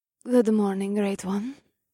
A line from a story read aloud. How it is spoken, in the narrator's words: the desert goddess said in a seductive voice